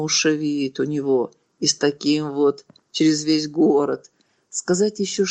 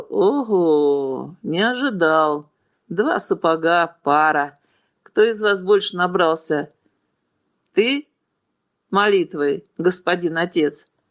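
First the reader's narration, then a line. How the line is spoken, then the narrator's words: Mocking. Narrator (Russian): Альфред насмешливо сказал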